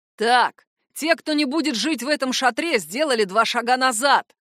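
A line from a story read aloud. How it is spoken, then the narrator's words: Menacing bark. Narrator (Russian): Грозно рявкнул гад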